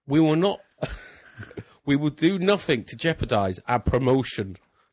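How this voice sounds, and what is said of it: David Gold impression drifting Irish. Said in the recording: “Good accent. ... I've got Irish bit. Where's David Gold gone Irish?”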